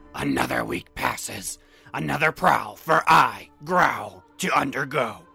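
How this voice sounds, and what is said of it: Character voice of Growl. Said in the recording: “Yeah, you thought I wouldn't do the voice. Too bad, I'm doing the voice.”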